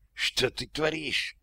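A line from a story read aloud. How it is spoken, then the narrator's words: Hissing. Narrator (Russian): прошипела она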